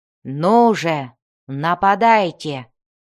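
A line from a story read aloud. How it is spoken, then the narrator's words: Growl. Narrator (Russian): прорычал он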